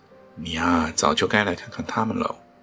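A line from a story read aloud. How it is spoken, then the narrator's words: Sighing. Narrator (Chinese): 顺恩嫂叹道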